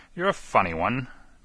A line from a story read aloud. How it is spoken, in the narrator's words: chuckled the inspector